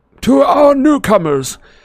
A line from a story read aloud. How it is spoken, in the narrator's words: said Dumbledore in a ringing voice, a beaming smile on his lips